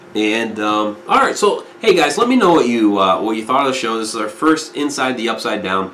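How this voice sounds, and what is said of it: Worn, strained voice. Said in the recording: “my voice is getting a little shot, a little worn”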